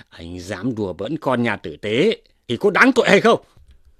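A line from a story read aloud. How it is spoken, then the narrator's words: Angry. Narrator (Vietnamese): Lâm Sung tức giận, bảo rằng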